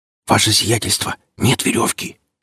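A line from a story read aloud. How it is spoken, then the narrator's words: Whispering scout. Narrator (Russian): шепотом доложил кто-то из разведчиков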